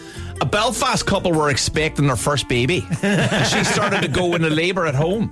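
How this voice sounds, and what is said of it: Put-on Northern Irish accent. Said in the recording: “Nordy accent, please. That's not my greatest, but I'll give it a go.”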